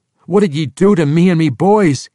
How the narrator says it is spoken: King Harnoth yelled at Drizzt

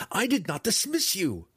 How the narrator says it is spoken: cried again, helplessly

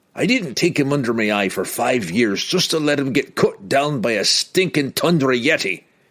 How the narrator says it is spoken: Bruner blurted, impatiently, with the drow's hesitance and nervousness

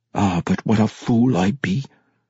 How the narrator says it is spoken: He muttered through clenched teeth

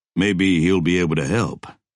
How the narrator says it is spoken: said

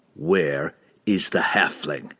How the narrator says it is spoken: Drizzt snarled

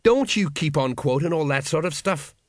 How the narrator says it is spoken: snapped Colon

